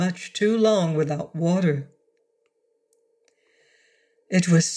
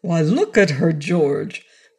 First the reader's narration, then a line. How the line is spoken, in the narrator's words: Professor Carter had exclaimed